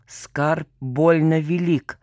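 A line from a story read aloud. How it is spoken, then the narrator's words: Through gritted teeth. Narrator (Russian): процедил дядька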